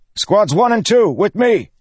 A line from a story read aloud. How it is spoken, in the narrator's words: he shouted